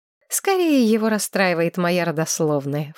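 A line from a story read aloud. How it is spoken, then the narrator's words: Scornful snort. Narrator (Russian): фыркнула Маргарет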